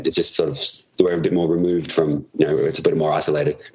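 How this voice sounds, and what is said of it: Australian accent, Adelaide variety. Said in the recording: “I'm from one of the capital cities is Adelaide ... my accents are different to like a normal Australian accent.”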